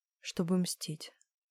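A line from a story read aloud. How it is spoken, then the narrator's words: Whisper. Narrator (Russian): прошептала я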